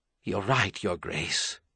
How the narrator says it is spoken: the Archbishop half-whispered

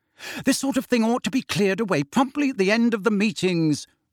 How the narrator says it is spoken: she snapped

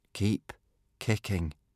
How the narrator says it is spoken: said Hiccup slowly

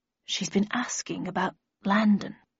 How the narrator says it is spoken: added in a quieter voice

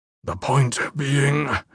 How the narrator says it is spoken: Andros growled

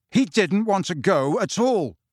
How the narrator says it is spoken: said Harry angrily

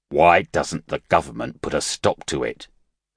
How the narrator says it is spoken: Shi Chang asked sharply

